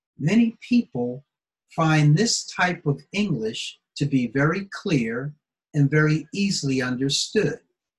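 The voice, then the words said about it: American English accent. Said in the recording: “my American accent and my American dialect”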